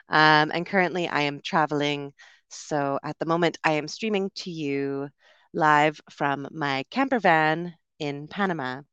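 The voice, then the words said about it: Canadian English accent. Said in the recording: “you will mostly hear a Canadian accent today”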